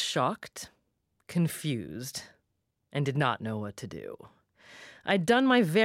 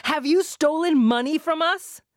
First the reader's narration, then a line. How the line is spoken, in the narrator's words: she shouted again